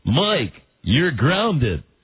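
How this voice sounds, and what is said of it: Imitates another person's voice. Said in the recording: “your Alan Thicke impression ... I do an Alan Thicke impression”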